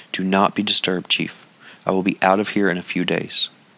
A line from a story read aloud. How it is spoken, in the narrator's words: he whispered feebly